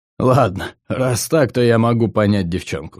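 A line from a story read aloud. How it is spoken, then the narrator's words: After laughing. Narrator (Russian): сказал он, отсмеявшись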